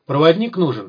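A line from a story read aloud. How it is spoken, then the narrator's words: Indifferent question. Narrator (Russian): спросил Сухой безразличным голосом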